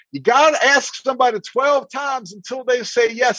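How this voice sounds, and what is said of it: Deliberately bad Texas accent. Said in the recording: “I'll do it my bad Texas accent, but this guy had a strong Texas”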